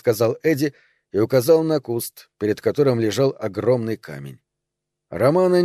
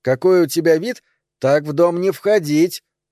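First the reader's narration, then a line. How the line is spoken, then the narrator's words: Shouted. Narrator (Russian): крикнул Эдди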